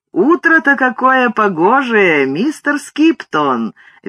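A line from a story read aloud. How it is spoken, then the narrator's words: Cheerful sing-song. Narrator (Russian): весело произнес он напевным голосом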